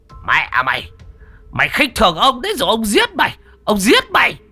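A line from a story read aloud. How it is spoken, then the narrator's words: Hissing while running. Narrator (Vietnamese): Lão Tám Quýt chạy một mạch, miệng rít lên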